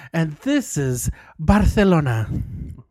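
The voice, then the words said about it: Put-on Castilian Spanish accent. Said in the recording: “Do you like that little Spanish accent? ... Castellano?”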